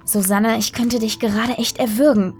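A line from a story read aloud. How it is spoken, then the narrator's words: Hissed through clenched teeth. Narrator (German): zischte sie durch die aufeinandergepressten Zähne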